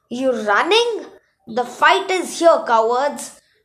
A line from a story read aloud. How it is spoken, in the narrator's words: she yelled